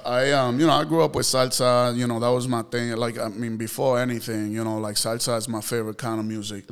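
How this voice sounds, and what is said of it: Puerto Rican accent. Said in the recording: “Did you not hear his accent? ... I thought he was Dominican ... I'm Puerto Rican”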